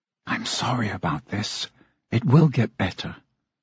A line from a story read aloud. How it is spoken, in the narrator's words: her mother whispered